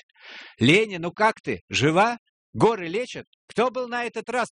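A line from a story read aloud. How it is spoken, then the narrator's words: Shouting. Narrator (Russian): прокричал ей Эрик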